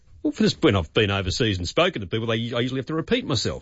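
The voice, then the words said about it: Australian accent. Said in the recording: “we don't think of the Australian accent as being difficult to understand and appreciate, but overseas, they've got no idea what we're talking about”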